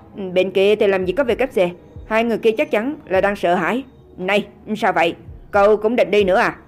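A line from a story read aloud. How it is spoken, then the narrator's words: Slightly angry. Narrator (Vietnamese): A Phi có chút tức giận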